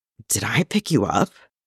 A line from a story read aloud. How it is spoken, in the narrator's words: Clint murmurs